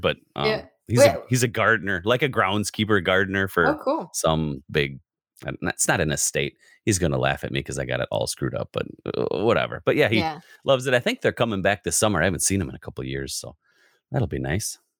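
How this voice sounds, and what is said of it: Wisconsin American accent. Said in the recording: “In Wisconsin, if you can't tell by the accent.”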